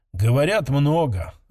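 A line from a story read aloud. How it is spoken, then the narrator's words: Tired reply. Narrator (Russian): отозвалась Айрин устало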